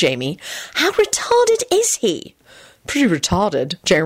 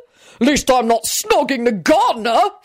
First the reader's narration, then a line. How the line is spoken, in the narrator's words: Richard bellowed back